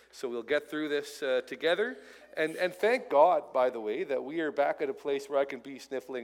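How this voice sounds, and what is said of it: Congested voice from a cold. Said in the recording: “I've got a bit of a cold up here, as you may be able to hear in my voice.”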